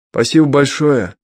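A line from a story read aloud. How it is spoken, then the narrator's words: Hurried shout. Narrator (Russian): успел крикнуть Виталий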